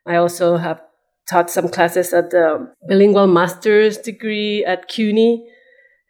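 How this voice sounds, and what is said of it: Noticeable accent. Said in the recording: “See, there's the accent.”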